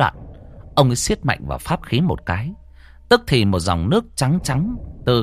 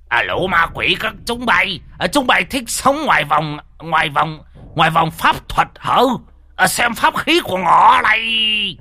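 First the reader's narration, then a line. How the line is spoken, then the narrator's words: Shrill hissing cry. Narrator (Vietnamese): ông rít lên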